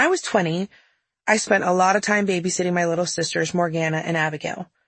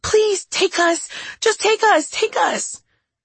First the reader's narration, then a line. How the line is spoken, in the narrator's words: All 4 immediately started screaming